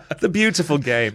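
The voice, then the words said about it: Fake British accent. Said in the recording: “Now I'm thinking of a fake British accent. I apologize to you.”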